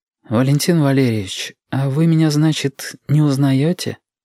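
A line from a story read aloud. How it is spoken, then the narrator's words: Quiet, half-questioning. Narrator (Russian): проговорил негромко и полувопросительно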